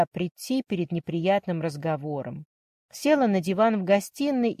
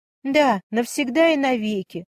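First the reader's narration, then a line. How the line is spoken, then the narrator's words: Tearful exclamation. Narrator (Russian): воскликнула Варя, и слезы потоком хлынули из ее глаз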